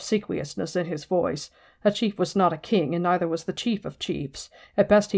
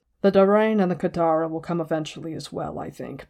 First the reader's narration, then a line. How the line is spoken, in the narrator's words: Bruin said calmly, and quickly